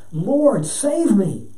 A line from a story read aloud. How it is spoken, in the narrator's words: beginning to sink, he cried out